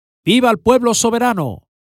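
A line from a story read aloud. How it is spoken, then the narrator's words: Father shouting. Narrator (Spanish): El padre grita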